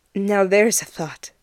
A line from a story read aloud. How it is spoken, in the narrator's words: Ed blinks fuzzily, and sighs